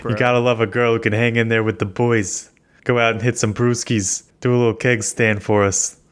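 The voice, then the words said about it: Muddled put-on American regional accent. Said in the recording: “Are you a New Yorker living in Florida making fun of Bostonians? ... I don't know what accents I'm doing.”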